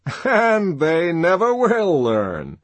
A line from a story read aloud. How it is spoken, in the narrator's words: he added, and laughed, as though he had somehow scored a personal triumph over the electrocuted animals